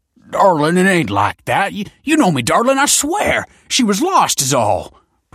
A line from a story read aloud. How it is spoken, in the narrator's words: protested the man, yelping at the blows